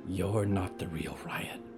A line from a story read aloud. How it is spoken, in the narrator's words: she whispered